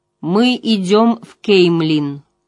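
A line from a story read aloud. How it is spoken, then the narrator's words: Loud firm declaration. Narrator (Russian): громко и твердо заявила Эгвейн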